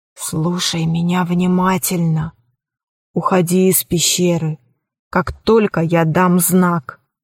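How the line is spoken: Old woman whispering. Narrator (Russian): старуха прошептала

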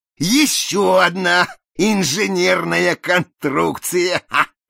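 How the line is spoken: Exclaiming, choking with laughter. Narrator (Russian): воскликнул Проспера, давясь судорожным хохотом

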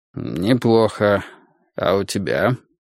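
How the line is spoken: Dry question after pause. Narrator (Russian): сухо спросил он, помолчав

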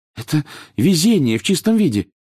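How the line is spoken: Excited, agitated. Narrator (Russian): взволнованно произнесла Гермиона

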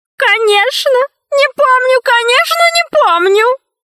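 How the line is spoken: Bitter sobbing, sage. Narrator (Russian): мудрец горько зарыдал

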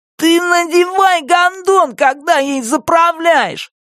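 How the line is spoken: Grinning shout. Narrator (Russian): крикнул он, ухмыляясь

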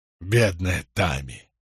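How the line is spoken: Sorrowful sigh. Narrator (Russian): горестно выдохнул Джек

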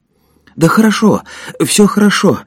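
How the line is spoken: Moved, touched voice. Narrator (Russian): растроганным голосом произнес Женя

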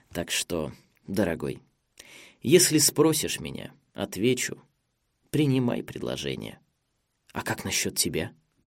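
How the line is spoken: Quiet, thoughtful. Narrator (Russian): Эрнест тихо продолжил

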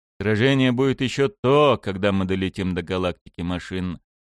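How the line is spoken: Gloomy. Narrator (Russian): мрачно сказал я ему

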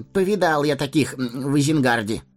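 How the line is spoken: Snorting. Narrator (Russian): хмыкнул Мэри

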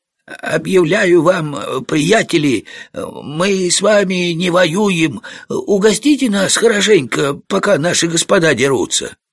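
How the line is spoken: Feigned sick, hoarse voice. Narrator (Russian): Этот пройдоха прикинулся, будто он болен, говорил хриплым голосом

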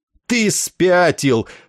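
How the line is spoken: Angry shout. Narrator (Russian): злобно крикнул Денбору Есариан

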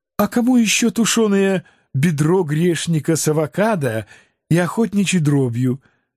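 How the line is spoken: Gentle, conciliatory. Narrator (Russian): Моя умничка ласково попыталась погасить конфликт еще в зародыше

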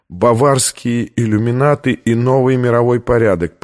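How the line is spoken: Dejected voice. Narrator (Russian): произнесла она упавшим голосом

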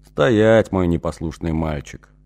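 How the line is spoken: Demanding. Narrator (Russian): потребовал Ибалар

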